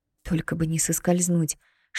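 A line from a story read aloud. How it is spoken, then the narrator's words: Almost silent whisper. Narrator (Russian): шептала почти беззвучно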